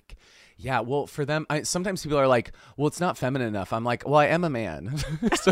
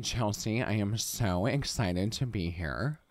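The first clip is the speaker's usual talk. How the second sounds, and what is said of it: Kourtney Kardashian impression. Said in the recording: “I can still do her voice.”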